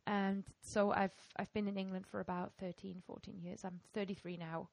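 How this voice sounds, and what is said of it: German-English mixed accent, Welsh-sounding. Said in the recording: “I'm this sort of weird accent mix of having grown up in Germany and ... I moved to England ... a lot of people think I sound Welsh”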